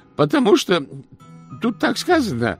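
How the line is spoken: Trembling voice. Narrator (Russian): ответил ключик дрожащим голосом

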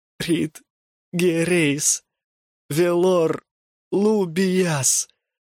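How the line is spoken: Grief-choked moan. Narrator (Russian): простонал он, давясь тоскою и горем

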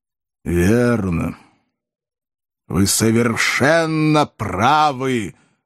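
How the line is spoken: Booming, frightening shout. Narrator (Russian): гулко и страшно прокричал Воланд

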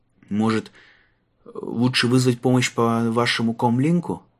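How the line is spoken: Hesitant suggestion. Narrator (Russian): неуверенно предложил Марк

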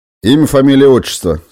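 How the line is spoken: Menacing. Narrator (Russian): сказал он грозно

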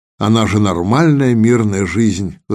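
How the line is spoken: Sigh, trying to seem stern. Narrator (Russian): вздохнул Калаев, стараясь выглядеть суровым и непреклонным

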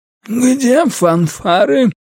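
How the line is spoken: Hoarse wheeze. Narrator (Russian): прохрипел

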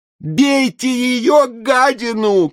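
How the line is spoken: Shout. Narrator (Russian): крикнул Блинов

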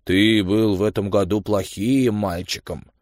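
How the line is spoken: Gloomy, grim. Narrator (Russian): Санта-Клаус мрачно говорит

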